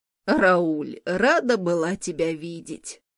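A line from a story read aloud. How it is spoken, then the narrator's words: Creaky voice. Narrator (Russian): Проскрипела Морган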